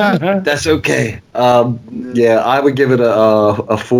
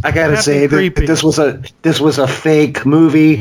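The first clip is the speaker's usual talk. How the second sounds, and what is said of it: Poor imitation of another person's voice. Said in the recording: “really bad Donald Trump impersonation”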